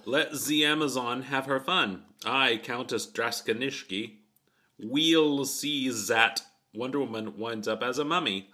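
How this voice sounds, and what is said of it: Comic villain voice, French accent. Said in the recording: “the mummy woman. Mm-hmm. Mm-hmm. Who's speaking in a French accent ... she says let Z Amazon have”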